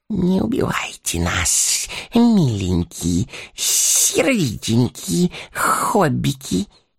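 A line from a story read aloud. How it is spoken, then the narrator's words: Wheezing. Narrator (Russian): сипел Горлум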